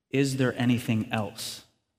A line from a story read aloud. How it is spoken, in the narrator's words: asked